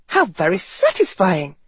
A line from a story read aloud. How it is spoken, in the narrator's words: Garrett exclaimed triumphantly